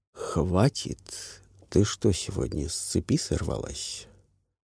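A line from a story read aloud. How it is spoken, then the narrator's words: Quiet. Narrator (Russian): тихо произнес Франсуа Лемер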